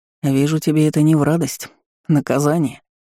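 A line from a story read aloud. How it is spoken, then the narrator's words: Knowing grunt. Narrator (Russian): понимающе хмыкнул Ларм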